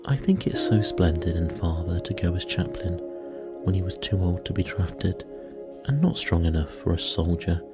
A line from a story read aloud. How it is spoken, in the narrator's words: said Meg warmly